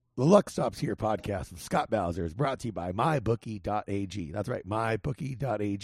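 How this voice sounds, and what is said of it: Raspy, hoarse voice. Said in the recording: “Sorry for my raspy voice ... you definitely sound more bookie-ish for sure”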